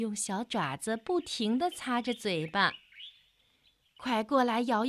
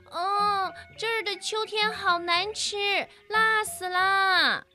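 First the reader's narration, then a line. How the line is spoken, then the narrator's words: Squeaky loud cry. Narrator (Chinese): 小老鼠吱吱地大叫起来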